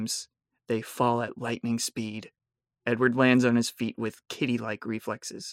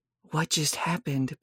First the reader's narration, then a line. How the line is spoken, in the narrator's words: Bella said shakily